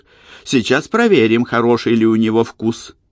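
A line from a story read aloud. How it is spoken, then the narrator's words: Excited giggle. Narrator (Russian): Джордж взволнованно хихикнул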